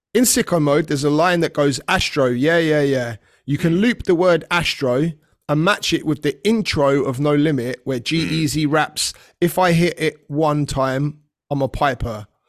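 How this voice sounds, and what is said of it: Slow, deliberate reading-aloud pace. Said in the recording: “I'm reading this as we go for everyone listening, by the way. That's why I'm talking so slow.”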